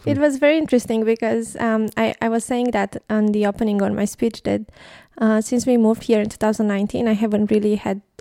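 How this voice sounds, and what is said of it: Romanian accent. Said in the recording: “your Romanian accent or your accent”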